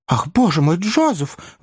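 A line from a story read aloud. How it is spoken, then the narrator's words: Feigned embarrassed exclamation. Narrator (Russian): воскликнула Мэри, притворяясь смущенной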